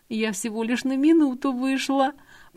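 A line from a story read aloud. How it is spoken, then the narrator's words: Whimpering young woman. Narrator (Russian): прохныкала девушка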